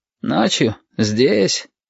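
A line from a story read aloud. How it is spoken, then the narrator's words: Sleepy surprise. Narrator (Russian): сонно удивился Шамиль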